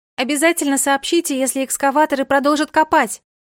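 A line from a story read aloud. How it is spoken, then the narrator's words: Calling out after someone. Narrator (Russian): Крикнула вдогонку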